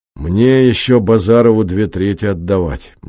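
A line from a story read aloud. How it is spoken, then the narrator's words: Gloomy. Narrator (Russian): мрачно сказал патриот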